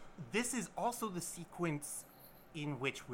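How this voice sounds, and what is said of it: Usual voice. Nothing is said of it.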